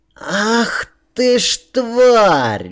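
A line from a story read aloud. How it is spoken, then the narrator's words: Shrill scream. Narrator (Russian): визгливо закричал младший барон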